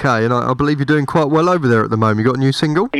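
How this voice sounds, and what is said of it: British accent. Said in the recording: “my dodgy accent, but I'm from the UK”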